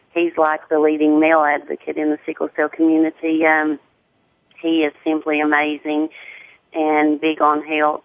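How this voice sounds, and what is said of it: Deep southern American accent. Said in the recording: “my deep southern accent.”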